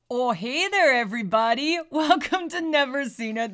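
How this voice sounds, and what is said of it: Put-on Canadian-style accent. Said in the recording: “as you can tell from our spot-on whatever kind of accent we're calling that”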